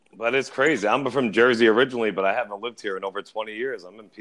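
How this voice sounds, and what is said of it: New York accent. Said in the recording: “New York accent. ... I love it. It's so fitting for this.”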